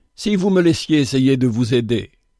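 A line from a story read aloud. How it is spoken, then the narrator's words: Bishop, cordial voice. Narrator (French): dit l'évêque d'une voix cordiale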